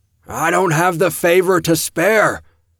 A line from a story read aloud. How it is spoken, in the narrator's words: the high priest bellowed the words